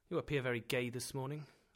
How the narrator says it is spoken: I said

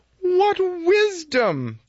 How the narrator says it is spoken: the sages exclaimed

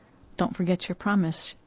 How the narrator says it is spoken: she murmured

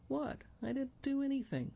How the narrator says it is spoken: Sebastian pleads

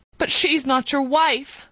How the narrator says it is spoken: cried Sue distractedly

